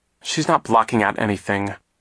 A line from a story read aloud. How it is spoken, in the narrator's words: Klaus said crossly